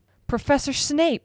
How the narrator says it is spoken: shrieked Madame Pomfrey

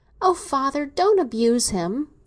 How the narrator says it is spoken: she exclaimed pleadingly

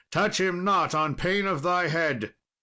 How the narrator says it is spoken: Sir Lancelot cried

